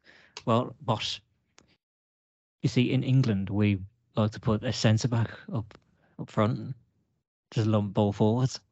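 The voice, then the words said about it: Exaggerated put-on Dutch accent. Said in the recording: “doing a really Dutchy Dutch accent? ... That was the point ... that dodgy Dutch accent”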